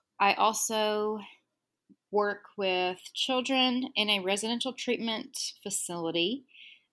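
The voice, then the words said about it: Texan accent. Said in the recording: “I'm in Texas. I feel like my accent is really going to come through”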